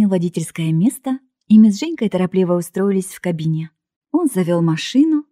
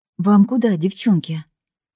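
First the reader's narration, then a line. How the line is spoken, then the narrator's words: Plain. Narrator (Russian): И Женька ответила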